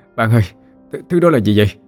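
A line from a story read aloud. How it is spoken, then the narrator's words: Breathless, trembling. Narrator (Vietnamese): vừa thở vừa run rẩy nói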